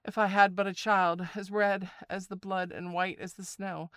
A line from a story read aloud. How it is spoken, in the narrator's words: sighed the woman heavily